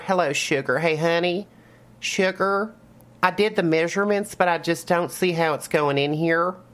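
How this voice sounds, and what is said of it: Put-on North Florida woman accent. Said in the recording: “I gotta do a more Northern Florida accent. ... I got to get into the mindset of a North Florida woman. It's always like, sugar”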